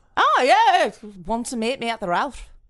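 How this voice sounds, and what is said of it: Poorly done put-on accent. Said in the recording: “That wasn't a good accent of any kind. It was fucking shit.”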